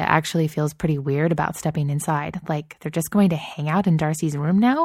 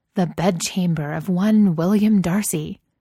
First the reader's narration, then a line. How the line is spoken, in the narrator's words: Gigi says, in a dramatic voice